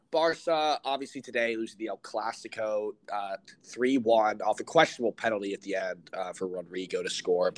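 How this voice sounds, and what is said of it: Sick, under-the-weather voice. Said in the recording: “a bit under the weather. So like if you hear that in my voice,”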